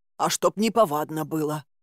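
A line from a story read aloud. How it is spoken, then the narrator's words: Grumbling. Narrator (Russian): проворчал хранитель леса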